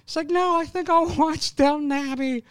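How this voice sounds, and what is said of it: Comedic impression of girlfriend's voice. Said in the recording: “I like that you do a Def Jam Comics impression of your own girlfriend.”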